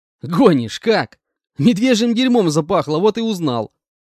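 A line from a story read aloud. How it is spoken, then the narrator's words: Laughing reply. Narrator (Russian): Расхохотавшись, ответил я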